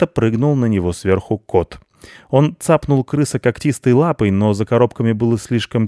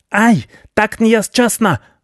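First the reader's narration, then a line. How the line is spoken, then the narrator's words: Wailing yell. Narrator (Russian): вопил крыс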